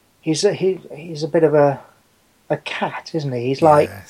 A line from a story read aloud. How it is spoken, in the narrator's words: He purrs